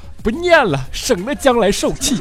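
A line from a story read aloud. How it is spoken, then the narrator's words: Determined. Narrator (Chinese): 一咬牙 说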